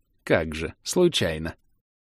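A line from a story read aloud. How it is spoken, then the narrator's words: Good-natured giggle. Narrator (Russian): Беззлобно хихикнула травница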